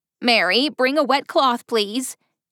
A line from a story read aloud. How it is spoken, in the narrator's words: hollered